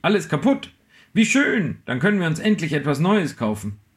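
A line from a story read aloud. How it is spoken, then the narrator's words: Excited exclamation. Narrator (German): rief sie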